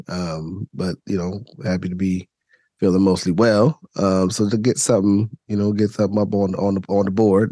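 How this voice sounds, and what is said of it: Raspy, scratchy voice. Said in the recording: “it probably comes through in my voice, I'm still recovering from uh, from from from illness ... my voice is a little a little raspy, scratchy”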